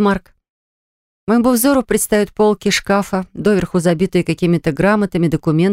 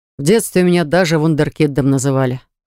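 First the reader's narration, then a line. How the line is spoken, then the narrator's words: Modest young man's snort. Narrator (Russian): хмыкнул этот скромный парень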